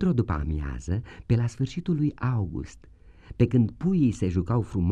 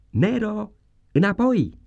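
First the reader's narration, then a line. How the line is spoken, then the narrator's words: Distant voice shouting. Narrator (Romanian): s-a auzit un glas strigând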